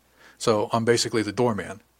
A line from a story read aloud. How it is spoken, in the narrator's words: asked